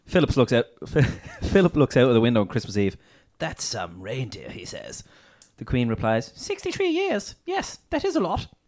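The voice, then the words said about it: Posh imitated royal voice. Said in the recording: “a poshy Prince Philip accent”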